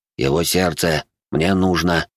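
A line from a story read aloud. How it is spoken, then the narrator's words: Calm, matter-of-fact, savage. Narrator (Russian): произнес дикарь так спокойно, будто бы речь шла не про надругательство над телом его сослуживца, а о чем-то обыденном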